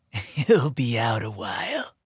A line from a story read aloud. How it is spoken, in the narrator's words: Dreamflyer whispered